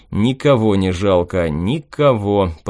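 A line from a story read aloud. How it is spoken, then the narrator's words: Drawn-out. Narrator (Russian): протянул я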